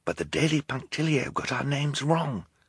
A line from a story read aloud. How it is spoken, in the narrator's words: Klaus whispered back